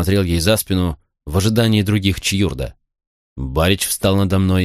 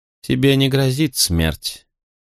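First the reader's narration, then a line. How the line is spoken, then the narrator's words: Calm promise. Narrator (Russian): спокойно обещала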